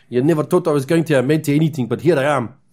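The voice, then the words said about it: Put-on South African accent. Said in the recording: “that accent got real weird there. And I'm not bad at the South African accent, but I can't do it in his style.”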